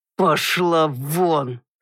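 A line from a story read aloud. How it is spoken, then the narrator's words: Through gritted teeth, angry. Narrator (Russian): сквозь зубы процедил граф Лавастин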